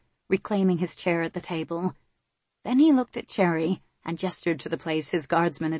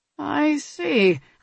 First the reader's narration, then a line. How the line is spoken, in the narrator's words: Ilario murmured